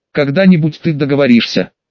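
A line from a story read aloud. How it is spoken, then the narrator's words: Irritated girl. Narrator (Russian): раздраженно произнесла девочка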